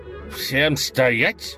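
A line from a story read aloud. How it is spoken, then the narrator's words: Growled. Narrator (Russian): прорычал глава разбойников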